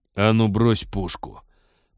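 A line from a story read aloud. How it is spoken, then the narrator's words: Hoarse rasp. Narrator (Russian): прохрипел Теодор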